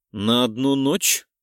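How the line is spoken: Snort. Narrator (Russian): Фыркнула я

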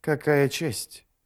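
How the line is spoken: Sighing. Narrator (Russian): Ярви вздохнул

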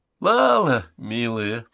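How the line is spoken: Said, starting to laugh. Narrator (Russian): произнес Грант, начиная хохотать

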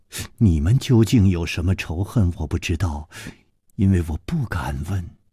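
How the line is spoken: Sighing. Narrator (Chinese): 柳无眉叹道

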